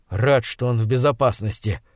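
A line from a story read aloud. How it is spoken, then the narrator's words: Muttering. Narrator (Russian): пробормотал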